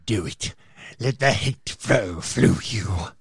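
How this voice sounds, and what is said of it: Palpatine impression. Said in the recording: “pretty good impersonation... your Palpatine puts a little wry smile on my face”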